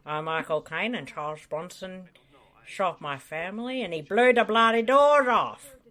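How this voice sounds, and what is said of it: Michael Caine impression. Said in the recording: “her famous Michael Caine impression... Best impression”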